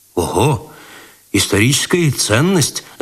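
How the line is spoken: Interested exclamation. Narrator (Russian): заинтересованно воскликнул Откаленко

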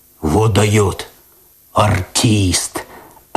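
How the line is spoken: Admiring bass voice. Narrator (Russian): опять восхищенно пробасил кот

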